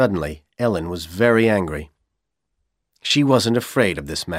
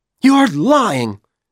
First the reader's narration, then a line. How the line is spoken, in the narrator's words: she shouted